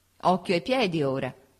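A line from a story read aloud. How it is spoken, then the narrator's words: Laughing woman. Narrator (Italian): disse mia moglie ridendo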